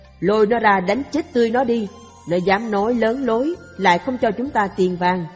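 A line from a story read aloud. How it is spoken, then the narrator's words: Furious loud roar. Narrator (Vietnamese): ông đại vương kia nổi giận xung thiên lớn tiếng quát rằng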